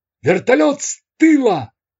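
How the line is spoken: Gunner's shout. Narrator (Russian): закричал кормовой пулеметчик

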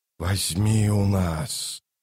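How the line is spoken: Rustling whispered chorus. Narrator (Russian): шелестящим хором прошептали тысячи голосов

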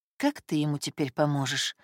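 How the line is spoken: Inner sigh. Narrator (Russian): вздохнула про себя

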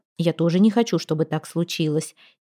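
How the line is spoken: Quiet reply. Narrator (Russian): тихо отозвался он

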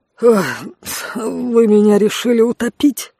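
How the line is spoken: Wheezing, sputtering. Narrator (Russian): отфыркиваясь, просипел Конт

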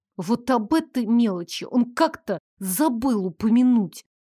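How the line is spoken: Through gritted teeth. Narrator (Russian): процедила сквозь зубы

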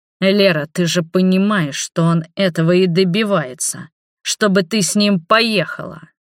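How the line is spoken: Growled. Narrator (Russian): прорычал Роберт

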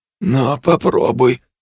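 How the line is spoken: Forced out. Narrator (Russian): выдавил

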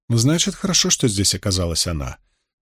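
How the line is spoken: Calm. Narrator (Russian): спокойно ответила Морейн

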